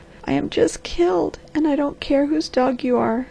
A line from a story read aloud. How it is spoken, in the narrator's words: sobbed the girl